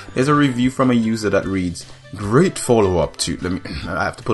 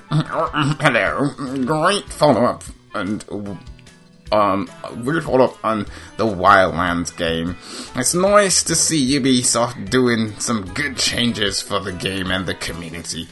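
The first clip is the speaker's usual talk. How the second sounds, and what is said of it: Exaggerated dumb-sounding voice. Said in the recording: “put on the idiot voice.”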